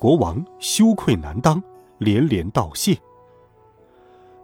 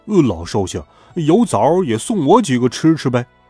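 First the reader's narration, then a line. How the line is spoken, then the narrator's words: Calling out. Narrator (Chinese): 猪八戒叫道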